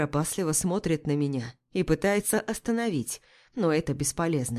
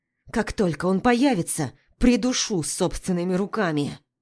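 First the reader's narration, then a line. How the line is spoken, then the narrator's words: Hissed through clenched teeth. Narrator (Russian): Цыжу сквозь зубы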